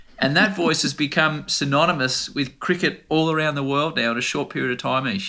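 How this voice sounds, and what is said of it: Rough Australian accent. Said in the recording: “my rough Australian accent”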